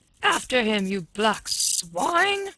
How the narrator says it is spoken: roared

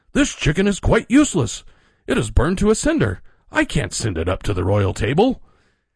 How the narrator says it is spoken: he cried in horror

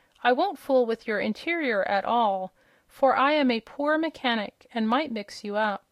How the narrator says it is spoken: the Scarecrow kindly promised

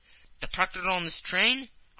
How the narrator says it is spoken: cried Fix

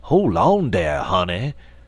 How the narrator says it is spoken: the old man exclaimed with a great affectation of alarm

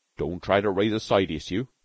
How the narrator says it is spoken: Beetle grunted severely

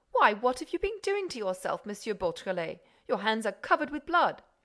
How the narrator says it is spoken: the magistrate exclaimed

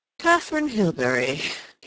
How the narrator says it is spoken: repeated with a curious little chuckle

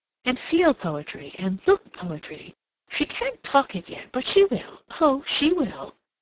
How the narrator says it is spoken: she exclaimed

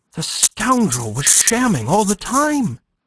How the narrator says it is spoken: exclaimed Climene

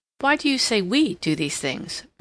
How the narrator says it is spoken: Mary interposed rather sharply

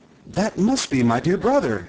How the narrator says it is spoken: exclaimed Shaggy

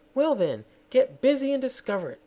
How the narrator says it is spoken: snapped the queen

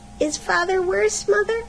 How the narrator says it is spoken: he was frightened, and said

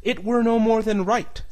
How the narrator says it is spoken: said

